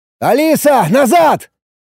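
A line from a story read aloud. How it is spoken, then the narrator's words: Shout. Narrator (Russian): крикнул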